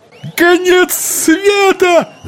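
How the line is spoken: Man yelling over crowd. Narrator (Russian): завопил какой-то мужчина, перекрывая шум толпы

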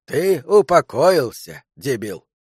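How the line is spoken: Grumpy grumbling. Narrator (Russian): проворчал Мальком Коули, который терпеть не мог перемен, равно как и всего прочего

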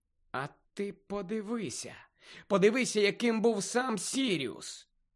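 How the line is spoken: Nagging inner voice muttering. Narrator (Ukrainian): пробурмотів набридливий голосок у Гарріній голові

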